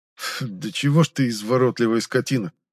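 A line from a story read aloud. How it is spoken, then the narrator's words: Snorted. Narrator (Russian): фыркнул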